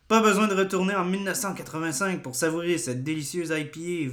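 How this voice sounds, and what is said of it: Put-on French accent. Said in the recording (French): “je fais un accent français”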